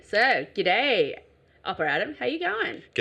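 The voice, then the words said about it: Put-on Australian accent. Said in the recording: “That sounds very Australian. ... I decided to go Australian today.”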